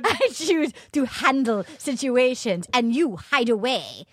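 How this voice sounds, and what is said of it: Put-on Russian accent, slightly Japanese. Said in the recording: “Here comes my Russian accent... That was a little bit Japanese. A little bit Japanese at the end.”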